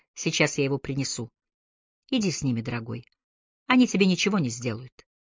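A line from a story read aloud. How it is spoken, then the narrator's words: Tender, affectionate. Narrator (Russian): ласково добавила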